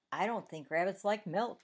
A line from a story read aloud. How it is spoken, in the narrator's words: he answered